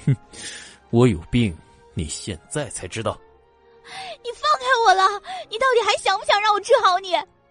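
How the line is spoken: Angry, through gritted teeth. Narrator (Chinese): 叶朵朵气得咬牙

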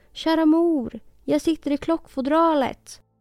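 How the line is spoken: Tiny voice calling. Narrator (Swedish): ropade en spädröst

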